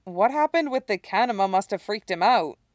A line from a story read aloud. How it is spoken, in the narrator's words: Scott says